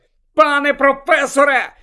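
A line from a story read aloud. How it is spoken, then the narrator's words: Shout. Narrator (Ukrainian): закричав Гаррі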